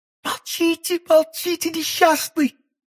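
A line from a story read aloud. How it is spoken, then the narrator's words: Young woman exclaiming. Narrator (Russian): воскликнула молодая женщина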